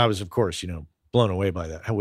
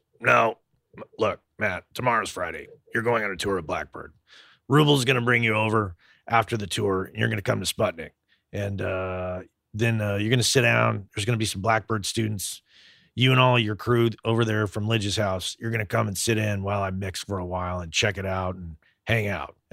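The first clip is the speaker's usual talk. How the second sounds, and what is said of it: Imitates another person's voice. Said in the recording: “What'd you think of my Vance Powell imitation? It was pretty good.”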